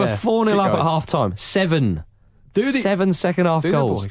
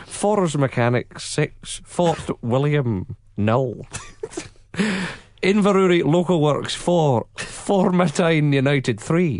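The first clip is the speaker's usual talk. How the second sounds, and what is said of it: Put-on Scottish accent reading results. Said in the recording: “your Craig Brown accent ... your Scottish accent ... This is worse than Marky Smith.”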